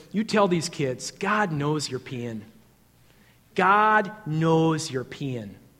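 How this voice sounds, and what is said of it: Thick Minnesotan accent. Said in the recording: “in this thick Minnesotan accent,”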